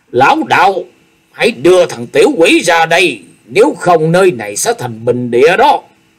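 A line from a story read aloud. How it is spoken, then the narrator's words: Barked command. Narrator (Vietnamese): quát bảo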